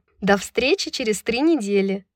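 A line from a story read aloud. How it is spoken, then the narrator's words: Cheerful. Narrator (Russian): весело произнесла Брайс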